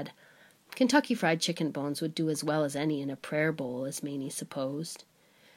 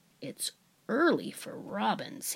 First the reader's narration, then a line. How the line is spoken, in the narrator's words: he muttered